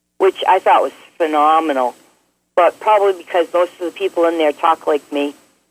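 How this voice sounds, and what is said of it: Boston accent. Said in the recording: “we like the Boston accent.”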